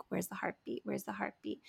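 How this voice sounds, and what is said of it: Imitates a small toddler's voice. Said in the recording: “in her little toddler voice”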